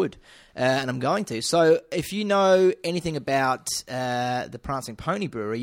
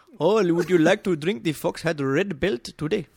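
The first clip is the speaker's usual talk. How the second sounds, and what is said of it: Put-on Indian accent. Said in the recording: “Indian accent, please”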